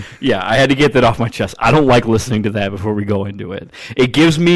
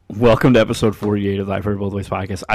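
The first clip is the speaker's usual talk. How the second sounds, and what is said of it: Talking very fast. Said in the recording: “Why are you talking so fast?”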